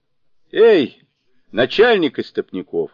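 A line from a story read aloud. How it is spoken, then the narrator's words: Loud shout. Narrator (Russian): громко крикнул Джубадзе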